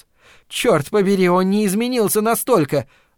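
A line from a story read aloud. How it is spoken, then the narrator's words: Shout in empty room. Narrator (Russian): выкрикнула Фрэнни в пустой комнате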